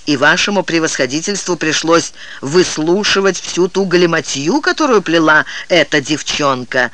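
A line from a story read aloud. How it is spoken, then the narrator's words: Angry. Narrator (Russian): Дао Гань сердито сказал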